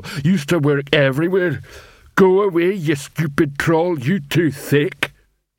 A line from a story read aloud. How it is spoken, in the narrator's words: he added gloomily